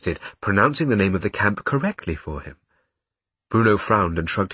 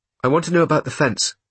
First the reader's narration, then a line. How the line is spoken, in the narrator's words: he said firmly